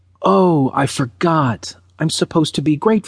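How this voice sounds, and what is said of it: Usual voice. Nothing is said of it.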